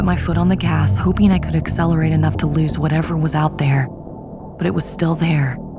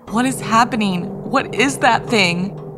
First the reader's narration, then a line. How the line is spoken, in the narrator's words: she cried out